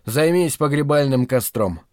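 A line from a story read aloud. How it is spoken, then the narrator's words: Tired. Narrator (Russian): устало сказал я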